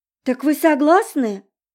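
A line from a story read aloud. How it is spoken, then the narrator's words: Exclamation. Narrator (Russian): воскликнула Изольда Августовна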